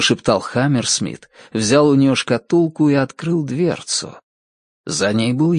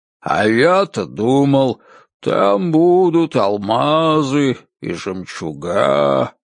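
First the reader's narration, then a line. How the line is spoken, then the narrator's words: Drawling. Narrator (Russian): протянул он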